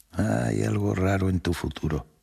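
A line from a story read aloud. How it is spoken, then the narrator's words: Plain. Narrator (Spanish): dijo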